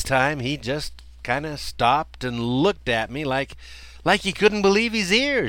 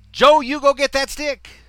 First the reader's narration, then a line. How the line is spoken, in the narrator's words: A third time I yelled